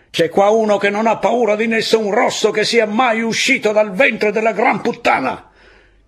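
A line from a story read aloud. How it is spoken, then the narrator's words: Strained red-faced officer shouting. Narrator (Italian): Quest'ultima frase fu un po' lunga da gridare, e la faccia dell'ufficiale, quando egli ebbe finito, era congestionata e rossa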